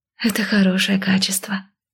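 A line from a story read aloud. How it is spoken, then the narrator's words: Breathy exhale. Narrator (Russian): выдохнула Маяла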